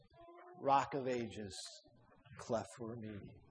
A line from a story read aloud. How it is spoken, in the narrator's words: With his arm around his dying chum, he began to sing in a low voice